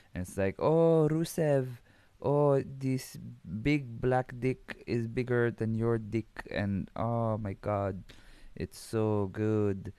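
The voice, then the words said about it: Put-on Russian accent. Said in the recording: “I'm just gonna give her the Russian accent.”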